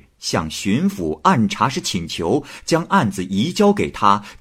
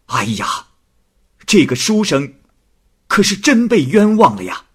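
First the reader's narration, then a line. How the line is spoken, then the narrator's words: Loud exclamation. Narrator (Chinese): 施学时……拍案大叫起来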